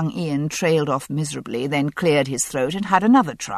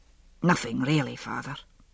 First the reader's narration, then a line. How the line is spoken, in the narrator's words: he murmured